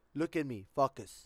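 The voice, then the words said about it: Thick Cuban accent. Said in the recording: “She has a very thick Cuban accent.”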